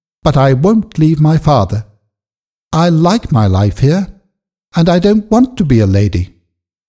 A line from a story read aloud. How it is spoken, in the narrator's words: said firmly